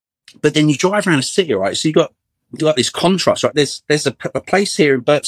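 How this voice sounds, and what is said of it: Very fast, tripping over words. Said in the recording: “I'm talking so fast that I'm choking on my own words.”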